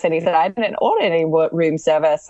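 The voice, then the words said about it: Put-on Australian accent. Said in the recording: “that's my Australian accent. ... You sure he wasn't from New Zealand? Because that sounded a little more like from Auckland.”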